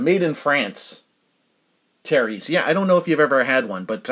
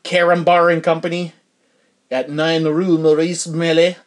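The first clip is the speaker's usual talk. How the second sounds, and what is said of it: Bad put-on French accent. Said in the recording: “That's a terrible French accent.”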